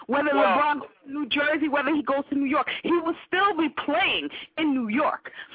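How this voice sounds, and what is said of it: New York accent. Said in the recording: “that New York accent”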